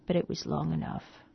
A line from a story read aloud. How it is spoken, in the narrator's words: he said sadly